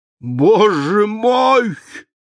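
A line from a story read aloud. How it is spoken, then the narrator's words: Strangled exclamation. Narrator (Russian): воскликнул он сдавленным голосом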